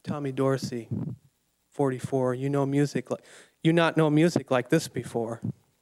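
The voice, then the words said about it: Quiet accented voice. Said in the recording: “announces in a quiet accent”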